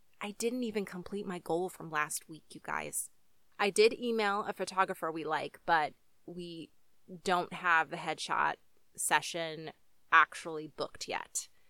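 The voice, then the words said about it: Slightly sick-sounding voice. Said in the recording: “I got sick not once, but twice. I'm still recovering, and you can probably hear it in my voice a little bit”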